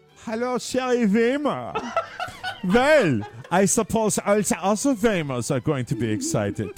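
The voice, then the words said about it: Put-on German accent. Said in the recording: “I think her name sounds best when said in a German accent”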